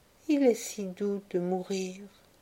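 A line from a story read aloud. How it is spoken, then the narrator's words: Man murmuring. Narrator (French): l'un des hommes murmura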